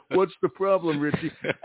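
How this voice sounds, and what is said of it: Heavy Italian accent, Richard Castellano impression. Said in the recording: “Richard Castellano, okay, kept having a repeat line ... With a real heavy Italian accent.”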